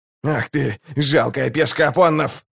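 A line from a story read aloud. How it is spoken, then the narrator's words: Growl. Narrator (Russian): зарычал Локон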